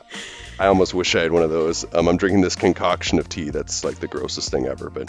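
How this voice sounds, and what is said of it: Congested, stuffy-nosed voice. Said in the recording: “less congested than”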